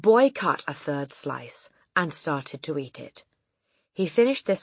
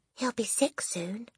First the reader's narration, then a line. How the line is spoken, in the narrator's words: Lavender whispered back